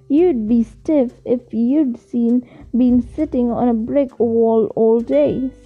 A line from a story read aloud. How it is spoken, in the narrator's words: said Professor McGonagall